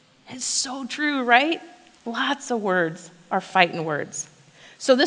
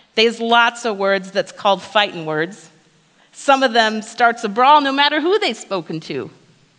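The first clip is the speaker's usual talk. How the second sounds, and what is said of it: Put-on New Jersey accent. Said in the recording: “I'm pretty sure it has to be said with a Jersey accent. So I'm gonna give it my best shot.”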